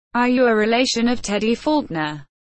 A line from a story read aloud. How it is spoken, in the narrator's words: Bruno asked Anne